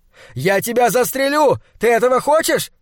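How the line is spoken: Shouting. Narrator (Russian): кричал Хок голым деревьям

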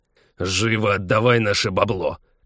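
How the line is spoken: Impatient growl. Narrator (Russian): Нетерпеливо рыкнул второй

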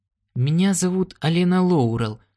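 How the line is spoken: Uncertain. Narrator (Russian): сказала она неуверенно

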